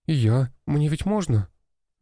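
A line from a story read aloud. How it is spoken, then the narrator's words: Uncertain question. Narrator (Russian): неуверенно спросила Дарья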